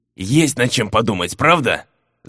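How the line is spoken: Angry growl. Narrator (Russian): Зло рыкнул граф

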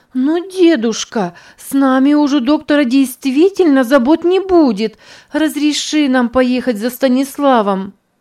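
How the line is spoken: Pleading. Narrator (Russian): Снова взмолилась Верушка

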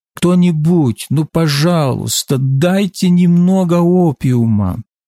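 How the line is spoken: Desperate moaning. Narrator (Russian): часами они отчаянно стонали

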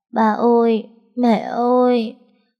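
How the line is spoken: Tearful child calling. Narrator (Vietnamese): Nó mếu máo gọi

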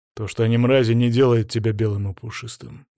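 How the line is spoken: Grim. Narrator (Russian): мрачно ответил

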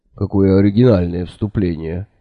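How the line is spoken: Sudden laugh. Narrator (Russian): неожиданно рассмеялся сэр Кофа

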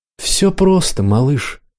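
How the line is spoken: Sad, smiling. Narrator (Russian): Кур печально улыбнулся

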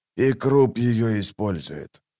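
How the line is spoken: Whispered, fat man. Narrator (Russian): прошептал толстяк

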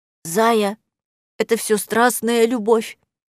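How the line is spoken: Attempted quiet wail. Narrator (Russian): Столик отчаяния пытался тихо возопить хвостатый

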